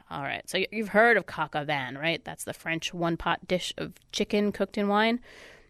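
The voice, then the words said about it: Congested, stuffy-nosed voice. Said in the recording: “I got a stuffed nose”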